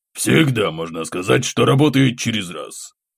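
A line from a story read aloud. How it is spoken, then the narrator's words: Scoffing. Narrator (Russian): хмыкнул Войт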